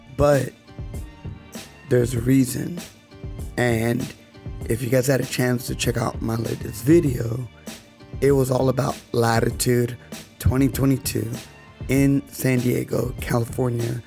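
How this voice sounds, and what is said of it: Damaged, rough-sounding voice. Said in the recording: “voice is shot. Wow, that sounds horrible. ... my voice sounds really bad”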